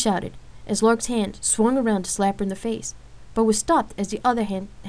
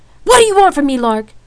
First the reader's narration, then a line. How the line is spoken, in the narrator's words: Rain asked in a raised voice